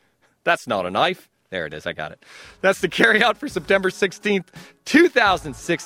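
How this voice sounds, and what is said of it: Usual voice. Nothing is said of it.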